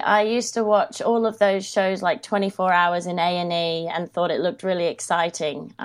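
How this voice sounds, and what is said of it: Australian accent. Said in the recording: “I hear the twang and I know you are Australian”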